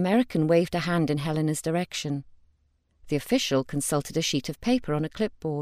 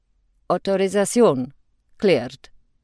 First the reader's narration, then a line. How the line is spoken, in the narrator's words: in his thick accent, said